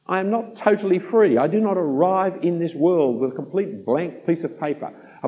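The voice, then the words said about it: Australian accent. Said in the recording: “I live in Australia because my great-great-grandparents' choices. That's what makes me an Australian citizen. That's what makes me speak with the accent I speak with”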